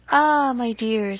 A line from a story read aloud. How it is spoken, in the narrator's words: said he